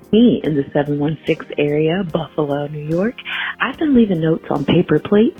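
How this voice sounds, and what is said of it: Whispering. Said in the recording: “I'm whispering because it's like 5 o'clock in the morning.”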